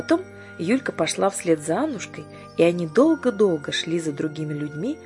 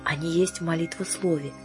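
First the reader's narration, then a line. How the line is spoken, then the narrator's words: Answered in whisper. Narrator (Russian): ответила та шепотом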